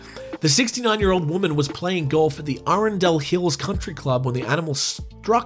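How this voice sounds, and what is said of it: Usual voice. Nothing is said of it.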